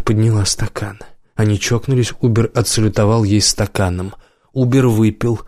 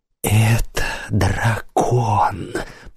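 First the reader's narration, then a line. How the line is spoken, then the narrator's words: Loud fervent whisper. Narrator (Russian): прошептала она горячо и громко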